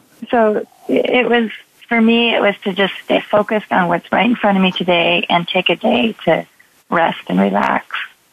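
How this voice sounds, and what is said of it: Scratchy voice. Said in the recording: “My voice is so scratchy today”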